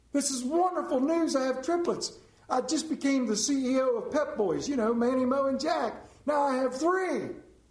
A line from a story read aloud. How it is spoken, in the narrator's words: in joy and he exclaims himself